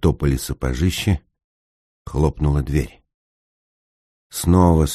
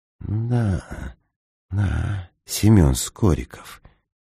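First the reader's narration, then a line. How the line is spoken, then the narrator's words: Whisper. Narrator (Russian): шепнул господин Неймлис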